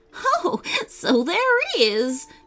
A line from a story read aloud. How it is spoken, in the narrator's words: said the giggling Professor Bonaparte